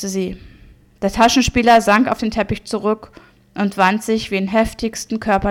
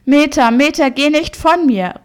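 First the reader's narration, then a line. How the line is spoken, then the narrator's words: Frantic, beside himself. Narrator (German): rief er außer sich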